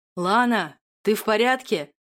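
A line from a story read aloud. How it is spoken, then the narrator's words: Booming thunderous voice. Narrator (Russian): Как раскат грома раздался над ухом голос герцога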